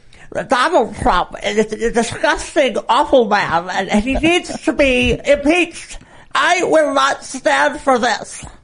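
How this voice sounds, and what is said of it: Nancy Pelosi impression, elderly voice. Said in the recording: “your Nancy Pelosi impression ... It's getting older in real time. Like she's older than she was. ... do the thing where she like her dentures like are falling out too”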